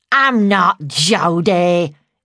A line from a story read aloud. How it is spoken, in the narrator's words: she growled